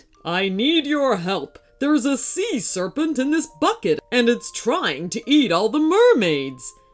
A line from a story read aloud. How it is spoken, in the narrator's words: he boomed